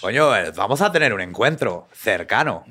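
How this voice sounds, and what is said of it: Put-on Spanish (Spain) accent. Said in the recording (Spanish): “Pero con acento español.”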